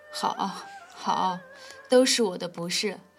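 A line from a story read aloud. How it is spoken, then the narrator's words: Furious laughter. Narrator (Chinese): 流苏气到了极点，反倒放声笑了起来，道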